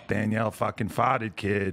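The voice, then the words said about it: New England accent. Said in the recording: “What kind of accent was that, sir? ... That's me. That's where I'm from in New England.”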